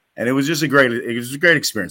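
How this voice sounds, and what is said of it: Emotional, choked-up voice. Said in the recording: “I got a little messed up there. ... Just got a little emotional.”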